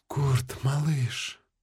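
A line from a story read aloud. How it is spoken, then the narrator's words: Sighing woman. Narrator (Russian): вздохнула красавица Матрона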